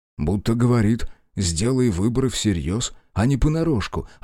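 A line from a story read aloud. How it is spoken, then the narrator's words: Plain. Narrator (Russian): ответил Шао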